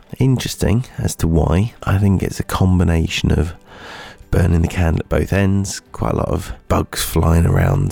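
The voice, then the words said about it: Unsteady, sore-throated sick voice. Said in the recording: “as you can probably hear, I am rather poorly. My voice is up and down and all over the place. I have a very sore throat”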